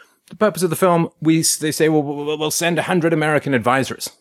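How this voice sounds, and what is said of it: Usual voice. Nothing is said of it.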